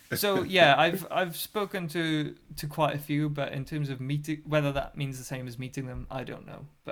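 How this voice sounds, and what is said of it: British accent. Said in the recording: “I had a British accent.”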